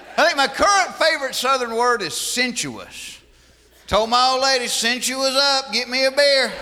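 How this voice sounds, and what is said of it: Southern American accent. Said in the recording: “Jeff Foxworthy ruminating on the difficulties of the Southern accent.”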